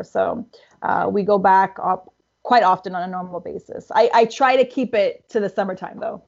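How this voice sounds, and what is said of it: Canadian accent. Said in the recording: “You still have the Canadian accent.”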